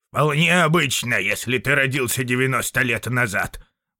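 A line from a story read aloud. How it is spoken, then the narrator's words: Old man muttering. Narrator (Russian): пробурчал старик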